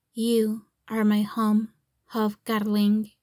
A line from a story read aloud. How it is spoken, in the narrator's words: he says softly